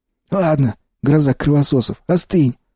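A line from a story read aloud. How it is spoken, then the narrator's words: Curt rebuke. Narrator (Russian): осадил меня Сиплый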